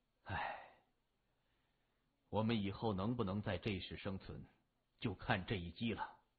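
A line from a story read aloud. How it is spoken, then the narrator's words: Sighing. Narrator (Chinese): 谢文东叹了口气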